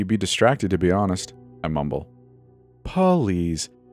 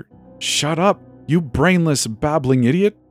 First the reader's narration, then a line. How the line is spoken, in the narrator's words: She screams at me